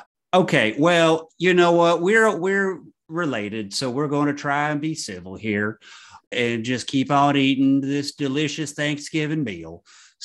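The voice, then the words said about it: Put-on Southern accent. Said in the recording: “your southern accent ... it's bad acting”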